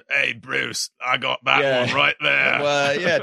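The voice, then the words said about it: Put-on Australian-style accent. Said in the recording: “you gave yours like a sort of British accent ... I think it's Australian. I think it's from Finding Nemo.”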